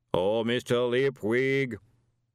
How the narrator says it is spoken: the voice boomed out across the stable yard

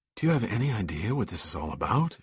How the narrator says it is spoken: said breathlessly

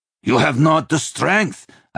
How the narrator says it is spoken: Einskaldir said angrily, as if disappointed

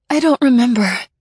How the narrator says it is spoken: I gasped

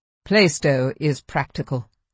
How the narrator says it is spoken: observed the Review dryly

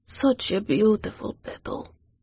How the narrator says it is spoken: he whispered tenderly

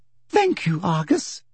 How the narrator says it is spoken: she said sweetly

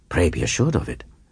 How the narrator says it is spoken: he made that brief reply warmly

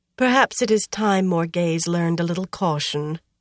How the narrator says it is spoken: Anaya sighed

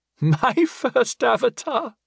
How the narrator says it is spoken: she asked, surprised, with a girlish giggle

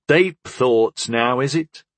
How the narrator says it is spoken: Harm chuckled

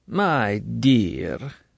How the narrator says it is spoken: she said smoothly

